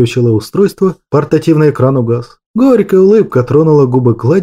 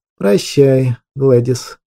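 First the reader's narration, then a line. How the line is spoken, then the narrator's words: Muffled, hollow voice. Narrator (Russian): глухо молвил правитель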